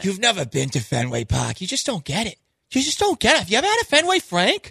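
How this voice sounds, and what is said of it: Put-on Boston accent. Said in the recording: “Do your Boston accent.”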